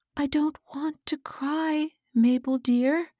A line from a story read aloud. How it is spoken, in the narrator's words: she said, as the latter gently wiped the tears from her cheeks